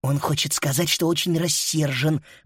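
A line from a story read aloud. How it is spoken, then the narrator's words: Openly hostile whisper. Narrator (Russian): прошептала Фрида, не пытаясь скрыть враждебности в голосе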